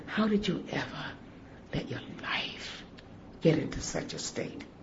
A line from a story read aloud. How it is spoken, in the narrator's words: she quietly said